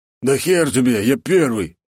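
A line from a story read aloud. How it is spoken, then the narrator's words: Deep bass voice. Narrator (Russian): пробасил мечник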